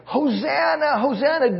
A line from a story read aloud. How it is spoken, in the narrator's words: people were screaming and they were cheering